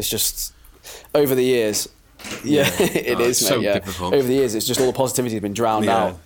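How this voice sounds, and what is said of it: Sore, rough throat. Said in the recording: “I've got a bit of a sore throat and it's going to be a bit annoying”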